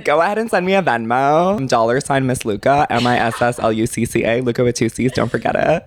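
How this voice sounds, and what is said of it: Sultry, buttery voice. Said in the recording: “your voice is so like sultry and buttery”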